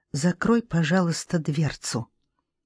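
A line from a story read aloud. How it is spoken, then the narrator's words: Very quiet. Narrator (Russian): Она сказала очень тихо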